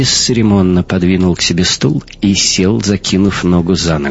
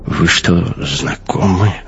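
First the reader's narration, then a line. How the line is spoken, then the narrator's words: Whisper. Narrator (Russian): шепнул Дайни Кох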